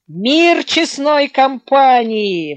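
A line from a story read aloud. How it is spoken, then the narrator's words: Deep bass exclamation. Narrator (Russian): воскликнул Орлов густым басом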